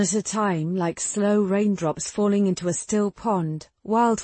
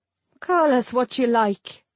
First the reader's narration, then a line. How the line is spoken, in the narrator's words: he said with a laugh